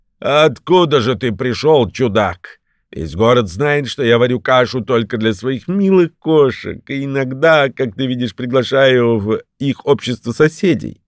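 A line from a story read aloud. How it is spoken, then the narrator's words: Old woman, laughing loudly. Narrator (Russian): Старуха громко засмеялась и сказала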